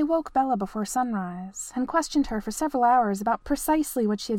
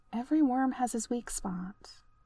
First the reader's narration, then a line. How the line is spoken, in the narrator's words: Bella murmured